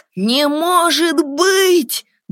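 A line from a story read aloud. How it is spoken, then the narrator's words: Loud exclamation. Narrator (Russian): громко воскликнул он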